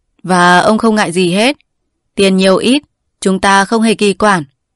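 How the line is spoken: Arrogant, smiling. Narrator (Vietnamese): Mỉm cười một cách kiêu ngạo, Hùng Chi lại bảo tiếp

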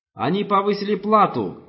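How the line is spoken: Shout from the audience. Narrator (Russian): выкрикнул кто-то из зала

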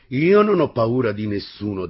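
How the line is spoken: Female teacher, manly voice. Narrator (Italian): disse con voce virile la maestra

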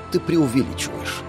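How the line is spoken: Calm and serious. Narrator (Russian): Абсолютно спокойно и серьезно произнес Иннокентий

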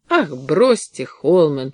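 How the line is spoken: Irritated. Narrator (Russian): сказал он раздраженно

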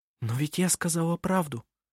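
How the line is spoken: Whispered in reply. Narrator (Russian): прошептала она в ответ

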